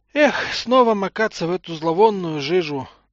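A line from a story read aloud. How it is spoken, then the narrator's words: Sighing. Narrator (Russian): вздохнул Гренц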